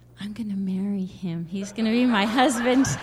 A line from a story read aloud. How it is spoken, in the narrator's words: I whispered to my mom